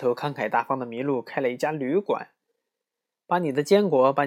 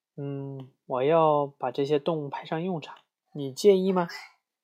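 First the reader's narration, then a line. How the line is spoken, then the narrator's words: Soft question. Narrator (Chinese): 一只名叫赫尔曼的松鼠，他轻声问道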